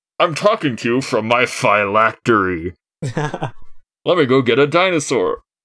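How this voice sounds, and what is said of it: Altered ghost character voice. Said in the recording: “I know I sound different... That's what being a ghost sounds like.”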